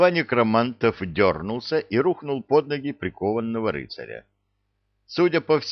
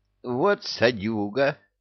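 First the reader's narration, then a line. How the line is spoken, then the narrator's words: Indignant whisper. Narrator (Russian): возмущенно шепнул невидимый Люка на ухо Кевину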